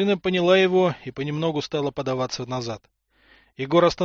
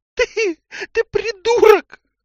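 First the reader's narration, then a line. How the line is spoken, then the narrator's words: Tearful. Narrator (Russian): Сквозь слезы сказала Тамара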